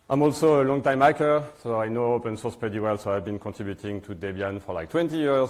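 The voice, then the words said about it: French accent in English. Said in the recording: “You can guess from my accent that I'm from France.”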